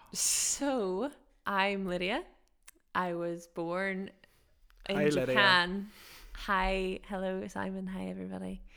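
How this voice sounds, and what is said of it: Mixed, UK-sounding accent. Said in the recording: “you might hear from my voice that I sound like I'm from somewhere in the UK, maybe”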